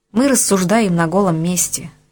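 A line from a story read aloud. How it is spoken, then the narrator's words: Sigh. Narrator (Russian): вздохнул Денис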